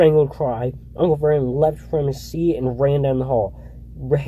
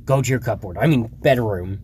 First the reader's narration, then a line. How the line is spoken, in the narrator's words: he wheezed at Harry